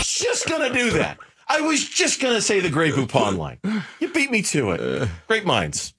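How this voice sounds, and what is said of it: Usual voice. Nothing is said of it.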